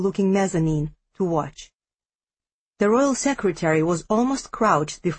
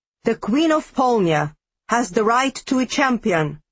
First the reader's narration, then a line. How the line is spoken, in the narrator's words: he shouted